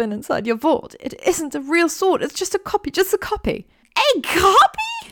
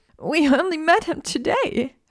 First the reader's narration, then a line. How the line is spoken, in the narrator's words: Hermione sobbed